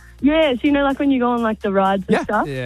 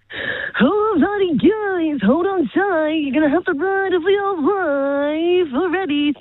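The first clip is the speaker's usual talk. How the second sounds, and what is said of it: Carnival ride operator voice. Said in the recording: “my impersonation of a carny voice ... A carny, like a carnival person ... they've got a bit of a unique voice”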